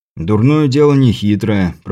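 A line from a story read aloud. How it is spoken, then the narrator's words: Grumbling mutter. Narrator (Russian): пробурчал Крепыш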